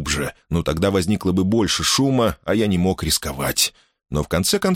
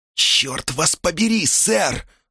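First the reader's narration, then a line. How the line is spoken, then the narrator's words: Hiss. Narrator (Russian): зашипела Хлорис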